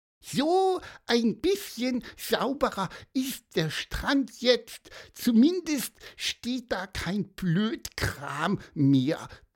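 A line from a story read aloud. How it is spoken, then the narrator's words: Squeaky voice. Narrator (German): piepste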